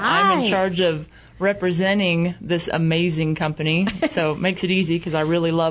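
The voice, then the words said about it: Kentucky accent. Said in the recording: “I can tell you're not from around here... I'm actually from Kentucky... still has an accent”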